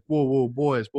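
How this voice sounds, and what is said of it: Put-on North Carolina accent. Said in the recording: “I'll do my best, you know, North Carolina accent.”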